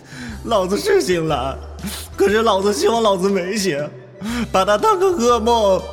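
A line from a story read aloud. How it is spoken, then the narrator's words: Tearful and angry. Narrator (Chinese): 冯耀带着哭腔，愤愤的说着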